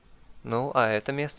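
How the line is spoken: Plain. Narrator (Russian): спросил я

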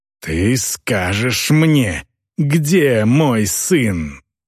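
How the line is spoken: Growl. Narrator (Russian): прорычала

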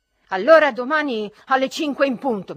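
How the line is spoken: Shout. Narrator (Italian): mi gridò

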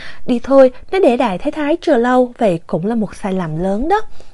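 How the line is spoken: Smiling. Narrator (Vietnamese): Mộ Dung Thư mỉm cười nói tiếp

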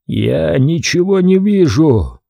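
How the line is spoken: Strained, choked voice. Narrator (Russian): сдавленным голосом произнес Кадин

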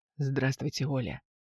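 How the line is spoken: Hoarse male voice. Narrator (Russian): раздается хриплый мужской голос

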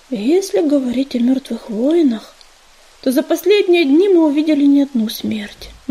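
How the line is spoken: Gloomy reply. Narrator (Russian): мрачно отозвался

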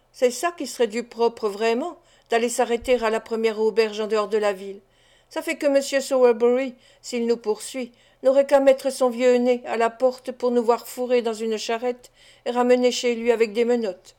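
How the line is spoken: Mocking tone. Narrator (French): dit Noé Claypole d'un ton goguenard

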